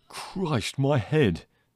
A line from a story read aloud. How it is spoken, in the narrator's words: moaned